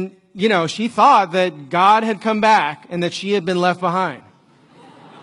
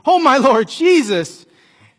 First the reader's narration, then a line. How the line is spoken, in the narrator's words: she exclaimed